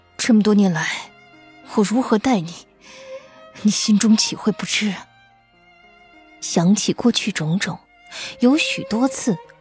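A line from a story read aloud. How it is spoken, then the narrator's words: Heavy, low voice. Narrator (Chinese): 高树清…声音沉沉的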